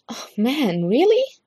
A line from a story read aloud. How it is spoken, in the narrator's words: Stiles says, much more eagerly than he intends to